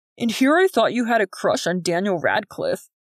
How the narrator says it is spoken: Jordan said with a chuckle

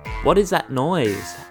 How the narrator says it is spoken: Alex asked

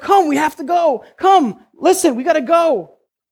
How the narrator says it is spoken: he's pleading with the older brother

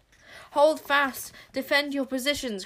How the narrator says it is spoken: cried Sycorax, the great war leader

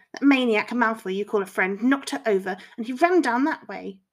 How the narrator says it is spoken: the boy spat

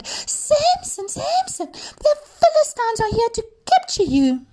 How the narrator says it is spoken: again she cried

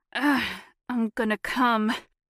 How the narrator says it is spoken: groaned

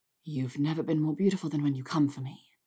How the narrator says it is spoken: said softly

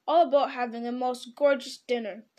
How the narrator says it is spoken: he grumbled

